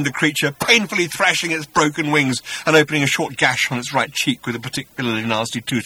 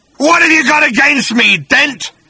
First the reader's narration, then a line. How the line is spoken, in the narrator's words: snarled the creature